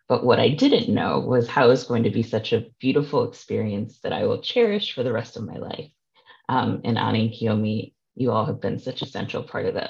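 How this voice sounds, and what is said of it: Emotional, choked-up voice. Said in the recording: “getting choked up”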